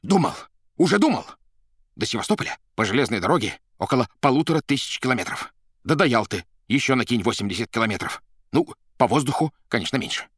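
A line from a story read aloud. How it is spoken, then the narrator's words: Loud yell. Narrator (Russian): заорал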